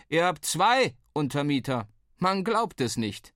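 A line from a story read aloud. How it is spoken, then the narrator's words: Called out. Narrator (German): rief uns zu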